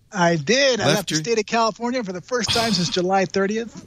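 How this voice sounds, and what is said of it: Strained, worn-out voice. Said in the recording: “I just finished speaking. That's why I'm losing my voice. I'm exhausted”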